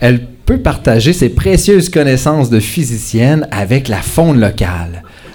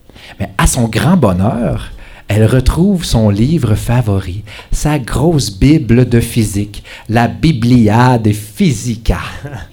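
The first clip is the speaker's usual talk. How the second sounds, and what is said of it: Put-on Spanish accent. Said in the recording (French): “C'est mon petit accent espagnol”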